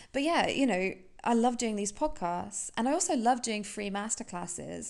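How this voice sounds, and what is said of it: British accent. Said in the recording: “everyone tells me I've got an amazing voice. So it's the British accent.”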